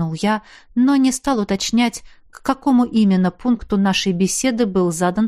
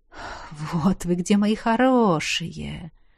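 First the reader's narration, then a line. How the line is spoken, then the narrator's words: Relieved exhale. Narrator (Russian): С облегчением выдохнул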